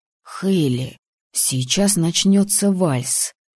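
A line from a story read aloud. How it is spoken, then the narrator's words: Whisper. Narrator (Russian): прошептал Тор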